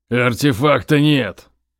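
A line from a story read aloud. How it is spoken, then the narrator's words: Barking angrily. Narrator (Russian): рявкнул он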